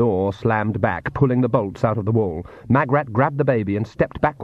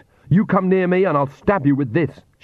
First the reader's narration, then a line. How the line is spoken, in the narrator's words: she shouted